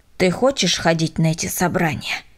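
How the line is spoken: Stern question. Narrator (Russian): строго спросил Миша

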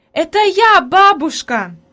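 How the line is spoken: Joyful shout, female. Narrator (Russian): закричала обрадованно Хади

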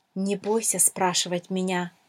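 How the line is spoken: Plain. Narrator (Russian): сказала драгоценная жемчужина

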